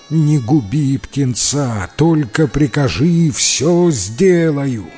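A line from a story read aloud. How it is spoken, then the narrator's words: Raven pleading. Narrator (Russian): Взмолился ворон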